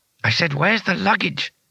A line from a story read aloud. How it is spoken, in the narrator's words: hissed Bethan behind Rincewind's back